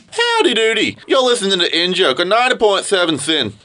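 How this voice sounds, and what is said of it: Odd put-on accent. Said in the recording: “I don't know what that accent was.”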